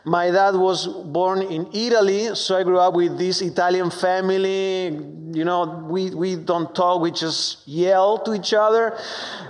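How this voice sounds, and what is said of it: Strong Argentine Spanish accent. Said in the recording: “I am from Argentina, so excuse my strong accent.”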